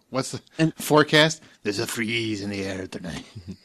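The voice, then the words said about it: Transylvanian-sounding accent. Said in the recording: “Why did he sound more Transylvanian when you do it? ... Every accent I have is Transylvanian.”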